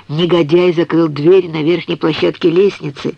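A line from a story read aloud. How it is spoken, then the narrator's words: Calm. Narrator (Russian): спокойно сказал Артемис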